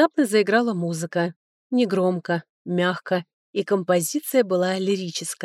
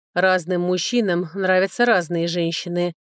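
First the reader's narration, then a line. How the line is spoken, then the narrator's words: General's muffled voice. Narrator (Russian): глухо сказал генерал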